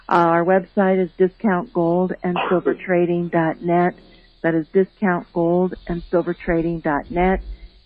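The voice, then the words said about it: Slightly hoarse, failing voice. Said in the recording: “I'm losing my voice a little bit ... if I happen to cough”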